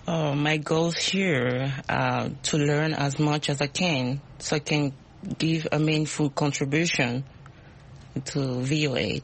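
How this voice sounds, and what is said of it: Speaks with a non-native accent. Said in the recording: “My accent. ... We love accents. We all have accents.”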